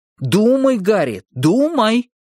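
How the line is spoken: Theatrical exclamation. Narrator (Russian): театрально воскликнул он

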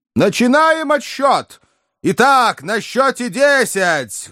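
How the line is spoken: Loud loudspeaker announcement. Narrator (Russian): громко оповестили динамики

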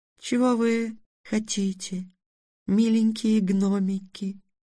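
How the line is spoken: Tender question. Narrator (Russian): ласково спросила русалка

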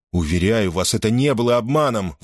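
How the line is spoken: Exclaiming. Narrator (Russian): воскликнул Гордон

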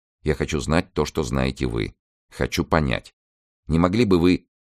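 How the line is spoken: Quiet, shaken. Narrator (Russian): Траффорд тихо сказал

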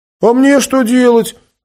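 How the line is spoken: Offended shout after someone. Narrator (Russian): обиженно крикнул вслед Лас

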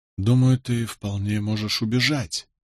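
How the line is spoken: Barely audible whisper. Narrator (Russian): произнес я еле слышным шепотом

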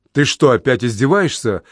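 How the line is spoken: Plain. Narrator (Russian): спросила Анжелина

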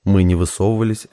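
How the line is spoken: Laughing. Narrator (Russian): Засмеялся Стас

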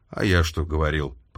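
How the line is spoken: Grumbling. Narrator (Russian): пробурчал Смит

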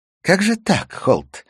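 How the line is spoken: Cheerful. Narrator (Russian): весело сказала она

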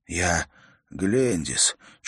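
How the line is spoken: Barely audible, wondering breath. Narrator (Russian): чуть слышно выдохнул кельт, как будто дивясь звуку собственного имени

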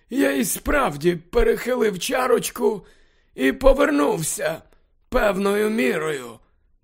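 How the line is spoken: Muttering to himself. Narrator (Ukrainian): Дамблдор бурмотів швидше до себе

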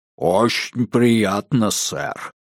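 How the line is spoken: Booming giant voice. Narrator (Russian): прогудел великан

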